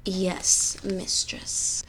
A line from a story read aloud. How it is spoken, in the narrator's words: she purred